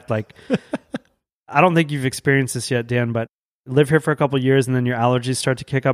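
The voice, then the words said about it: Allergy-affected, congested voice. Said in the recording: “sorry about my voice. My allergies are just in full effect.”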